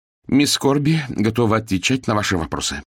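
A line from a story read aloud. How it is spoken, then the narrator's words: Plain. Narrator (Russian): сказала Хвощева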